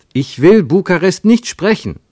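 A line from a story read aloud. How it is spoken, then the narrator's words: Called out. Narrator (German): rief Ernst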